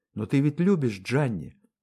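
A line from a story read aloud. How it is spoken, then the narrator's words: Soft. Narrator (Russian): мягко сказала Тереза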